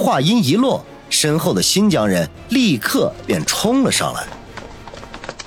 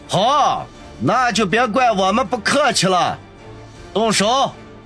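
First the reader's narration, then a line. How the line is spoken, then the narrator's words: Stern, raised voice. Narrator (Chinese): 中年人脸色一沉，声音提高了几分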